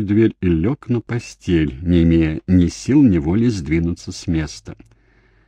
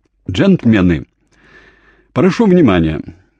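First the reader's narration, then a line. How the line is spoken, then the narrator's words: Loud. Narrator (Russian): Джейми громко сказал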